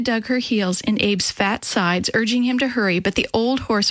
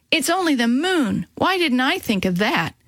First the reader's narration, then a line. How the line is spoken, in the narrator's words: Ida exclaimed to Abe